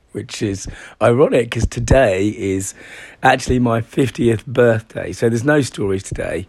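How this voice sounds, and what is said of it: Hoarse, failing voice. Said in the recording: “the first thing you can hear is that... I'm actually losing my voice,”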